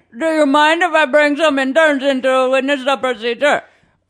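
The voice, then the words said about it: Put-on Indian accent. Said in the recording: “I'm very bad at Indian accents, so what if I tell you what to say since you're ... a lot better?”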